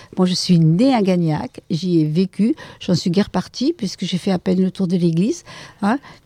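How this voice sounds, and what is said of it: Regional southern French accent. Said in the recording (French): “avec le bel accent ... avec cet accent, vous pouvez bien imaginer que je ne suis pas de Belgique ou du nord de la France”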